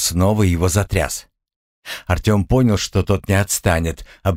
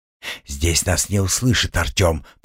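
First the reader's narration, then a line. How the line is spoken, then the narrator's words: Whisper. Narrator (Russian): прошептал санитар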